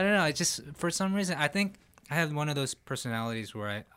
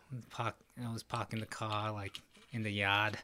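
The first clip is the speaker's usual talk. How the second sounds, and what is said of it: Put-on Boston accent. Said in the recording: “Then I got a Boston accent.”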